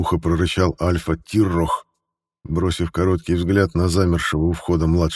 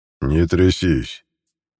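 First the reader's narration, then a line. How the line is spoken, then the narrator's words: Less menacing tone. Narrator (Russian): уже менее грозно произнес Альфа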